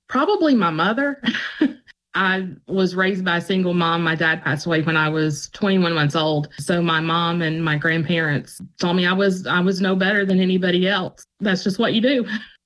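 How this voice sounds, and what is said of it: Emotional, choked-up voice. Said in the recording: “I can see that you're getting emotional”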